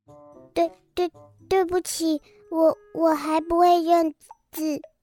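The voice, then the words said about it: Quiet, timid stammering voice. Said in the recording (Chinese): “有点害怕，他小声地说”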